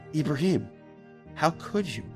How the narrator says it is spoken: the girl asked him, in the kindest voice imaginable

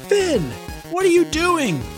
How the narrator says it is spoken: shouted Juliana

